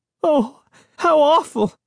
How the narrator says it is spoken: Sari cried, her voice trembling

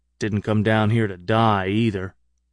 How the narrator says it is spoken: he said

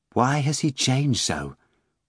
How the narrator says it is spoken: Margarita asked quietly of Volant as the wind whistled by

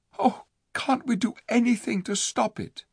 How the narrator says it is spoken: said Jill in a shaken voice

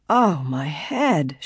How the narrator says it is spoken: she groaned

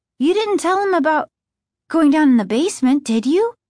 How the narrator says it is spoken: Margaret asked anxiously

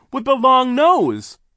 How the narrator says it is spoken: Klaus cried

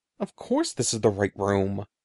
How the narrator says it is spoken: I replied impatiently

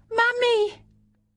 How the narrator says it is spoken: the child awoke and cried out

